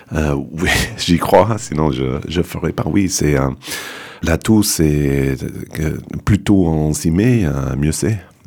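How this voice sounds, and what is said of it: Non-native accent speaking French. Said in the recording (French): “vous entendez parler français, je suis mis un peu tard, vous entendez un accent.”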